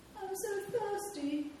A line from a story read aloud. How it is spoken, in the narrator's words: wailed Sniff